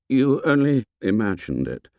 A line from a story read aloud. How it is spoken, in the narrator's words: said Ralph shakily